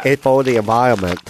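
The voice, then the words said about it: Put-on Vietnamese accent, muffled speech. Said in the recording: “I made him sound deaf. ... You made him sound deaf and Vietnamese.”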